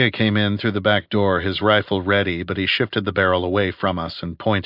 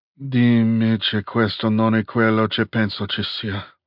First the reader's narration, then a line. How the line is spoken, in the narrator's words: he breathed